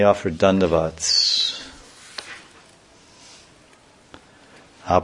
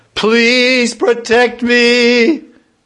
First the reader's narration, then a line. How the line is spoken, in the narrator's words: he called out